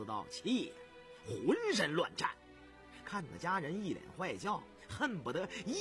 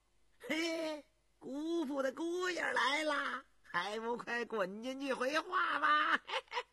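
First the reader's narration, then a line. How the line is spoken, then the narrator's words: Teasing amid laughter. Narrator (Chinese): 人们哄堂大笑，有的说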